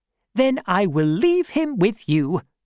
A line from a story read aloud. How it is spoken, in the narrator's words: said happily